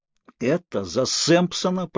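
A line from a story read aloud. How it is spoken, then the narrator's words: Through clenched teeth. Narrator (Russian): процедил я сквозь стиснутые зубы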